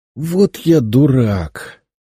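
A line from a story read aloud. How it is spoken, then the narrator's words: Groaning sudden realization. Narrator (Russian): простонал я, пораженный внезапной мыслью в самое сердце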